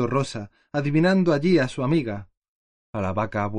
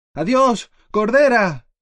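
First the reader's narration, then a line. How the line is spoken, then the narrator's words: Shouting with fervent faith. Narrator (Spanish): vociferó Pinín con la misma fe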